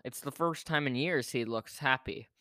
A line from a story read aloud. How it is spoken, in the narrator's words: said his mother